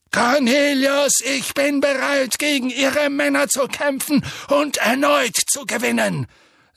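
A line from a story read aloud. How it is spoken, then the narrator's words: Thundering voice. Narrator (German): sagte Dumbledore mit donnernder Stimme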